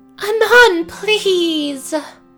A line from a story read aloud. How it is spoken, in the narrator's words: Celestia whines in a very unprincessy manner